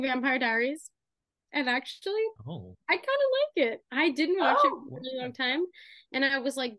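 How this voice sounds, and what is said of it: Usual voice. Nothing is said of it.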